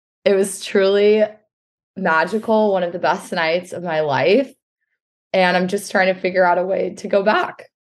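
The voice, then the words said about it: Hoarse, nearly lost voice. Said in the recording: “As you can probably tell from my voice, which is gone”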